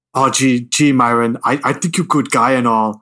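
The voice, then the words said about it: Imitates Austrian-accented actor's voice. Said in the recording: “the big, hulking Austrian man ... Who talked like this. ... his accent just sounds ridiculous in this film.”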